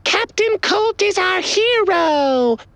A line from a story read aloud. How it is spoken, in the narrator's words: shouted a group of giggling cat girls